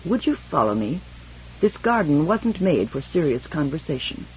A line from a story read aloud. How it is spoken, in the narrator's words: Hindebur said coldly